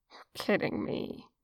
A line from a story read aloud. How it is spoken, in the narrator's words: Gold chuckled to himself